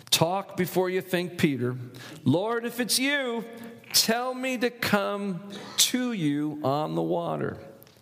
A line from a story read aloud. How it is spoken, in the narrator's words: Peter blurts out, first thing on his mind